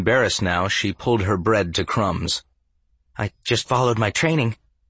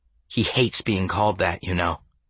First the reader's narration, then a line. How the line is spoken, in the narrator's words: said, dropping her voice just in case